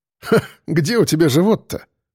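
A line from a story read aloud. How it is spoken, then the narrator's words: Snorting smirk. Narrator (Russian): хмыкнул я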